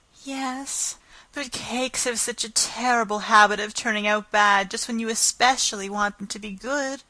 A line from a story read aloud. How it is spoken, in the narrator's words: sighed Anne